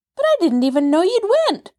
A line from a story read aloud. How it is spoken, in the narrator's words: cried Nancy